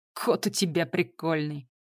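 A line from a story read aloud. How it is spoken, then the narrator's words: Silly giggle. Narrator (Russian): по-дурацки хихикнул таксист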